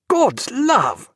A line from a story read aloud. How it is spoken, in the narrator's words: cried Stephen